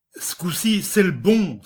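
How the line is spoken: Joyful exclamation. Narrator (French): s'écria le gendre joyeux

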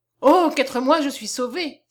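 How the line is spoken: Exclamation. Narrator (French): s'écria David

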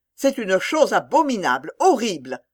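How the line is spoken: Exclaimed. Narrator (French): s'écria-t-elle

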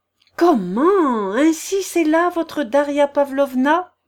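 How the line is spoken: Exclaiming. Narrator (French): s'exclama Marie Timofeyevna

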